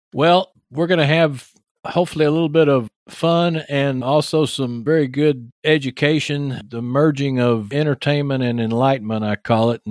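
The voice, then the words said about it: Texas accent. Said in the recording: “my Texas accent ... this Texas boy here ... I've got my Texas accent”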